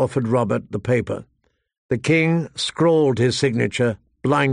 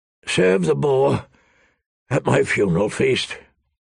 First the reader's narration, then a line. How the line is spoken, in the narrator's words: Robert rasped